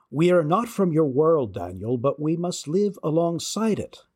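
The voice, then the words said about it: Slight put-on Cornish English accent. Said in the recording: “the Cornish fairy ... I'm going to attempt to have a slight inflection here just so you can tell the difference”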